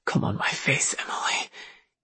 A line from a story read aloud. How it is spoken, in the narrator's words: he whispered